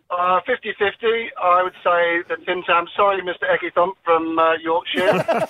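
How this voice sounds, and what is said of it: British English accent. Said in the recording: “I grew up in the UK, as you can tell from the accent.”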